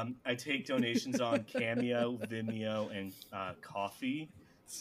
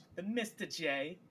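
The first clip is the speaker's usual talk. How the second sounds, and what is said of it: Harley Quinn character voice. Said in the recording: “That's my Harley Quinn impersonation.”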